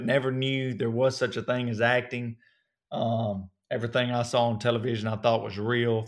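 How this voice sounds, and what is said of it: Southern US accent. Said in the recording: “I can hear your accent ... your Southern accent”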